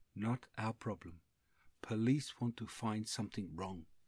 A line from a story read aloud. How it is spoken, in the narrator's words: Dorje saying quietly